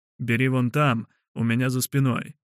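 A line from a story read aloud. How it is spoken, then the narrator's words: Plain. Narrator (Russian): сказал ему бородач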